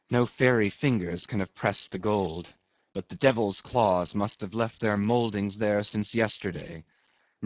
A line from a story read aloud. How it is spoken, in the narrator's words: murmured Starbuck to himself